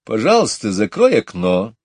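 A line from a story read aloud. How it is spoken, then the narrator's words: Stern. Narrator (Russian): строго сказала Мэри Поппинс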